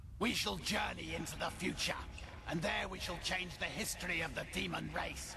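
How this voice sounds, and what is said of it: Badly acted British accent. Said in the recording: “This is like the shitty, like, bad accent... I'm trying to place this guy's British accent... shitty voice acting”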